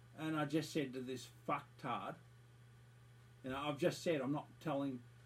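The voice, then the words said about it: Australian accent. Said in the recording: “by the sound of your accent, you're from Australia”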